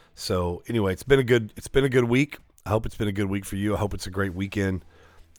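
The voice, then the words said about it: Worn-out, hoarse voice. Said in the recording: “my voice is shot, man, from Wednesday night. So much worshiping, praising, talking”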